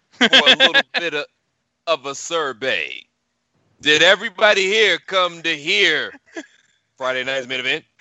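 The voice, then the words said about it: Scott Hall impression. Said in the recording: “Scott Hall impersonations”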